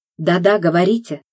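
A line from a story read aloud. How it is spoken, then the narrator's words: Excited. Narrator (Russian): взволнованно откликнулся он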